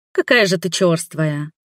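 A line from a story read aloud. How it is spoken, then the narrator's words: Offended parting remark. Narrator (Russian): обиженно заткнется, бросив напоследок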